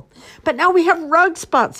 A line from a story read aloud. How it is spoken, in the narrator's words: yelled